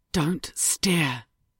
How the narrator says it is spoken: Ruby whispered

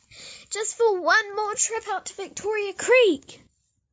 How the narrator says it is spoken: Gracie yelps at Jesse

